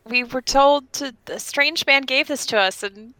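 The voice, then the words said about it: Put-on tourist character voice. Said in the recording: “my best tourist impersonation”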